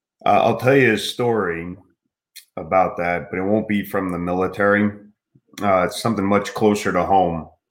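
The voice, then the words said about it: Choked-up, emotional voice. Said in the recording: “get choked up”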